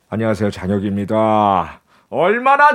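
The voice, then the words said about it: Imitates another person's voice. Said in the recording (Korean): “장혁 씨 성대모사도.”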